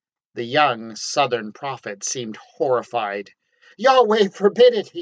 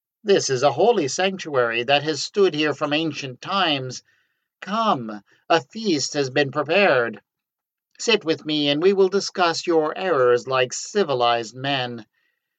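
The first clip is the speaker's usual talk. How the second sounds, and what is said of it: Honeyed, sweet-talking voice. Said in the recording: “in a honeyed voice.”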